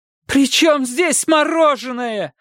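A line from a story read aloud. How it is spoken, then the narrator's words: Shouting, losing control. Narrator (Russian): закричала тогда, срываясь, Мария Семеновна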